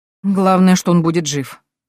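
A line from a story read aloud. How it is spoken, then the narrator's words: Grumbling. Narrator (Russian): проворчала я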